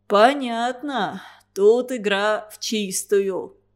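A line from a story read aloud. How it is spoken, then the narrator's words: Eager thunderous bass. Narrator (Russian): охотно поддержал его своим громовым басом Федор Туранин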